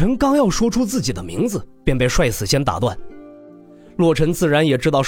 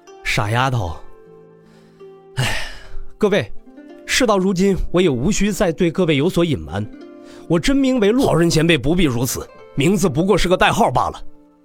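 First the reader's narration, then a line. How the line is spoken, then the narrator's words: Wry sigh. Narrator (Chinese): 洛尘哭笑不得的叹道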